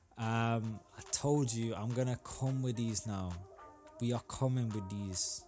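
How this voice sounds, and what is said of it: Briefly puts on an accent. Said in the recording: “I don't know why I did that accent.”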